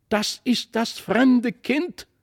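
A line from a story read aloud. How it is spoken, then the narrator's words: Calling out. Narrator (German): rief Christlieb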